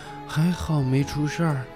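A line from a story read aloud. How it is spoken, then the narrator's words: Dazed mumbling. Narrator (Chinese): 凯文愣了半天，才回过神来，嘴里嘟囔着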